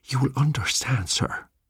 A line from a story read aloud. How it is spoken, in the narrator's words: breathed the old man